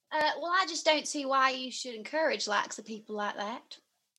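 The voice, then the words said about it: American Southern accent. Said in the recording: “American Southern States ... That sounds almost like a spitting image of Dolly Parton.”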